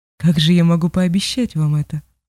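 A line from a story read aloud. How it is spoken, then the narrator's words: Calm reply. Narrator (Russian): спокойно отозвалась Мечка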